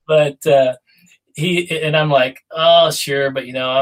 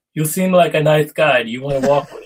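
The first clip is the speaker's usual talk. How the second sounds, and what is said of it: Bad put-on Polish accent. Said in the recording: “that was the worst Polish accent you could ever possibly ... Get. Wasn't even close to what Jarek sounds like.”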